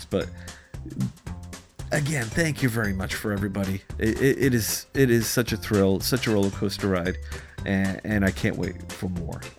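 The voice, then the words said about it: Hoarse, strained voice. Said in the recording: “I'm losing my voice now. I have severe allergies.”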